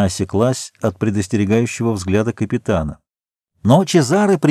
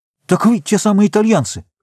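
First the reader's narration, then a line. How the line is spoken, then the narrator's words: Exclamation. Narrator (Russian): воскликнул он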